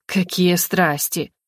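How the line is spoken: Father snorting. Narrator (Russian): хмыкнул отец

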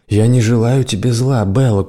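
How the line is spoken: Weary. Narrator (Russian): устало сказала она

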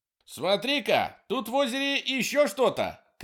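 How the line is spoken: Shouted. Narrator (Russian): крикнул Курт

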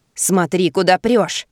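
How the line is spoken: Angry grumbling woman. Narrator (Russian): сердито брюзжит торговка

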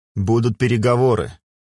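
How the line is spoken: Snorted. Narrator (Russian): хмыкнул

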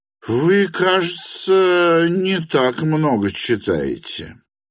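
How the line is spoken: Exasperated hiss. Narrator (Russian): прошипел он, не вытерпев

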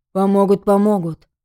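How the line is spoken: Grumbling. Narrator (Russian): проворчал полицейский

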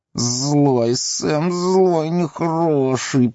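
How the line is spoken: Hissing. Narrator (Russian): прошипел Горлум

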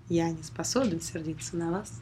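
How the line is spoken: Plain. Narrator (Russian): сказал

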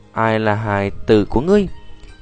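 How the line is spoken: Displeased frowning. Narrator (Vietnamese): Cổ Nguyên khẽ cau mày nói

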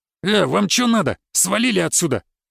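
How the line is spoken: Barking. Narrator (Russian): рявкнул толстый

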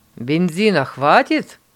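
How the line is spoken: Loud question. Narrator (Russian): громко спросил Лоренц

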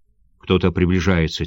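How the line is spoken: Quiet. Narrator (Russian): тихо сказал Камамори

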